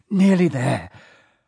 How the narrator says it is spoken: Harry panted

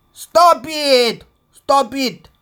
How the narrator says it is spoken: I shouted in English

